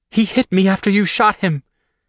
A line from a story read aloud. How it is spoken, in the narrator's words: she choked out